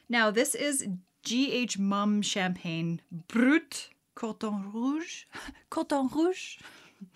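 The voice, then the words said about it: Put-on French accent. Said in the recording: “My French accent is just... chef's kiss.”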